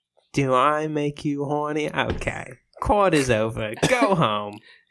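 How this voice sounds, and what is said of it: Austin Powers character impression. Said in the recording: “That's your Austin Powers impression.”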